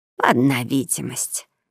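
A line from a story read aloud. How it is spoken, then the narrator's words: Displeased grumble. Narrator (Russian): недовольно буркнула Мари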